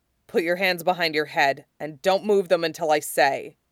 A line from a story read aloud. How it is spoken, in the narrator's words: In that commanding voice that never fails to make Zevran hard, he growls